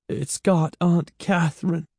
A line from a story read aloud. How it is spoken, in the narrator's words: Evan said weakly